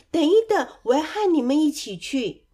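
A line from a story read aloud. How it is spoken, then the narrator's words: Crying out eagerly. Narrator (Chinese): 丑小鸭忍不住大声的叫了起来，说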